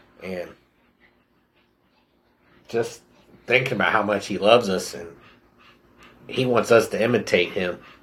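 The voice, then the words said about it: Emotional, choked-up voice. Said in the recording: “I'm getting a little emotional.”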